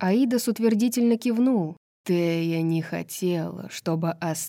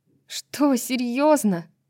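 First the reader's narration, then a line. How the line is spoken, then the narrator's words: Almost moaning. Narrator (Russian): почти простонала Брайс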